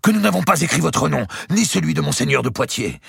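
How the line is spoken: Exclaimed. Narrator (French): s'écria Évrard

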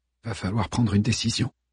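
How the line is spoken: Murmuring. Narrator (French): murmura-t-il

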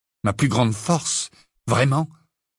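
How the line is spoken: Trembling voice. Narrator (French): répliqua Harry d'une voix tremblante

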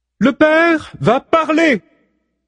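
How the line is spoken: Clear, flute-like voice. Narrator (French): annonce-t-elle d'une voix aussi claire qu'un solo de flûte

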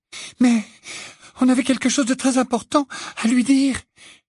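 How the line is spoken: Whining. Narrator (French): gémit Hermione

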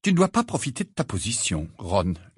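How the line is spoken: Curt retort. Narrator (French): lança sèchement Hermione

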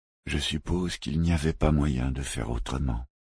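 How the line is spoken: Knight sighing. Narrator (French): soupira le chevalier

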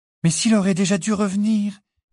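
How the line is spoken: Small anxious voice. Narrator (French): dit Hermione d'une petite voix anxieuse

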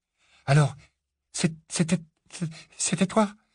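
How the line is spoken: Weak, teeth-chattering stammer. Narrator (French): bredouilla enfin Harry, claquant des dents, la voix plus faible qu'à l'ordinaire en raison de sa quasi-strangulation

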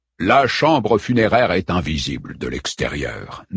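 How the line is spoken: Low voice. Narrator (French): dit Prospero à voix basse

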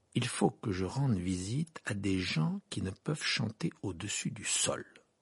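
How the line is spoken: Slow speech. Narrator (French): dit lentement

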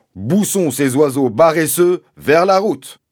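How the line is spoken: Shouting. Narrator (French): criant

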